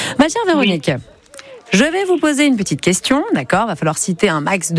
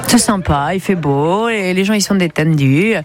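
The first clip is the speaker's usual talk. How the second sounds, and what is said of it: Put-on southern French accent. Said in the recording (French): “je prends un peu cet accent du sud”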